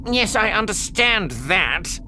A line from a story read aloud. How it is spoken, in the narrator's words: Ilparg said testily